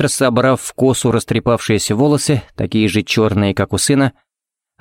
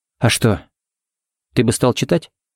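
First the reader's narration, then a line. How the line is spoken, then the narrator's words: Calm question. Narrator (Russian): спокойно спросила Сеймур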